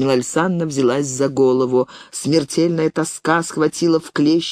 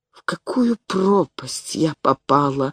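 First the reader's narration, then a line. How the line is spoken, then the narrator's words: Moaning. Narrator (Russian): стонала она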